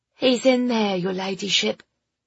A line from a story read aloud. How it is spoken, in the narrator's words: she said in a flat voice